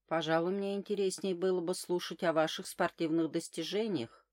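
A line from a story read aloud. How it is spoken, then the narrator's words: Plain. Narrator (Russian): сказала я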